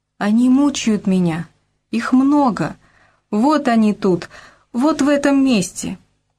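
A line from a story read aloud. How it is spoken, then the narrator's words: Speaking through subsiding sobs. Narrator (Russian): сказал человек, переставая рыдать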